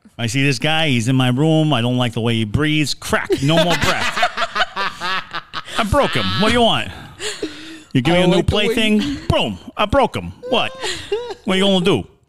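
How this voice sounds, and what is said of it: Put-on Ohio accent. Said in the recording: “That's my Ohio accent”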